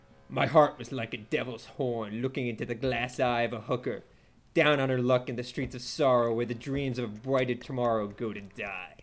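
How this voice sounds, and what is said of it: Performed video game character voice. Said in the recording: “I'm going to do the voice, too. ... Does this character sing? ... No, that is Hauser,”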